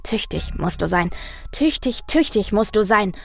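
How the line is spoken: Rhythmic murmur. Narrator (German): murmelte er und tippte dazu im Takt mit seinen Füßen auf den Boden

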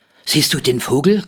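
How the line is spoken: Panting. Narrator (German): keuchte Rolf, der ältere der beiden

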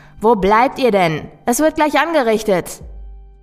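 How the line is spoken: Call. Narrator (German): rief ich

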